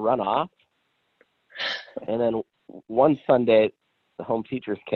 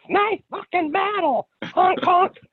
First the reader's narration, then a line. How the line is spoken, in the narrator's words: yelling to whomever with no context